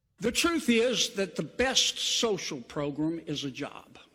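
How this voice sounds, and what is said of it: Slow, drawn-out Southern accent. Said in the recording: “a long, slow, going to pronounce every freaking syllable Southern accent”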